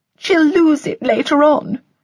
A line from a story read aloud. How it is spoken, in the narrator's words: sniffed mournfully